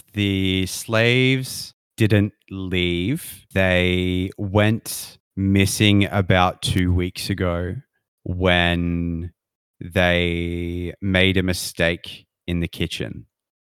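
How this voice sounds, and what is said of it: Put-on character accent. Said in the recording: “I lost the accent for a second.”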